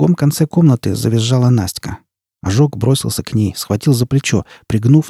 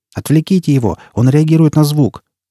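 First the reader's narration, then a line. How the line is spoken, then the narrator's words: Shouted. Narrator (Russian): крикнул цыган Ожогу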